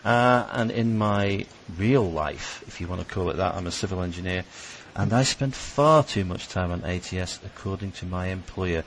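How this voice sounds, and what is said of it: British accent. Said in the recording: “I live in the UK, if you hadn't guessed by the accent.”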